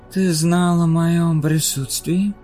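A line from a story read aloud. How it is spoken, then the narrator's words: Hoarse lyrical voice. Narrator (Russian): спросил голос с хриплым лирическим тембром, который он не слышал много лет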